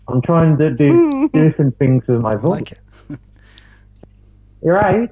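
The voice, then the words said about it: Higher-pitched, intimate put-on accent. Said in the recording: “You sound a bit more high-pitched and kind of intimate there. ... this sort of accent”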